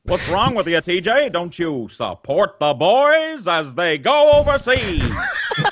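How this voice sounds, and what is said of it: Old-time announcer voice. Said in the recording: “The old announcer voice.”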